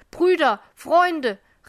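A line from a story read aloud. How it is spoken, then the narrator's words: Calling out. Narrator (German): rief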